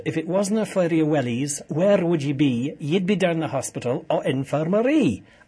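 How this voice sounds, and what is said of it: Toned-down Scottish accent, Billy Connolly impression. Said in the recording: “As Billy Connolly once said ... I've kind of dialed back the Scottish accent there.”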